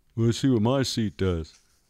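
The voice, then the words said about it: Imitates another person's voice, badly. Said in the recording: “That's my impression of her. It's very bad.”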